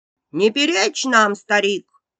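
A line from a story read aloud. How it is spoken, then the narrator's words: Rude shout. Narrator (Russian): грубо прикрикнула на него мачеха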